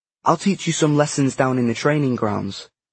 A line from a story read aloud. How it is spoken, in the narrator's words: John snapped